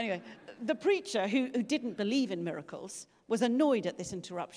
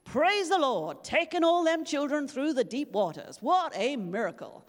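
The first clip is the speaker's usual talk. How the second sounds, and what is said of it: Put-on accent while quoting someone. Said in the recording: “Sorry about the accent.”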